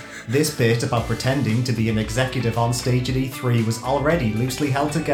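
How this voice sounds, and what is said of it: Usual voice. Nothing is said of it.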